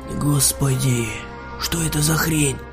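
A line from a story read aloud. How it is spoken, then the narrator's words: Stunned whisper. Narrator (Russian): пораженно прошептал Олег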